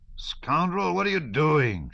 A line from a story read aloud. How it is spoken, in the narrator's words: shouted the innkeeper